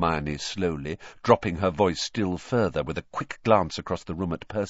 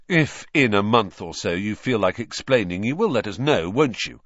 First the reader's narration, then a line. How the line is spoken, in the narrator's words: said Ron irritably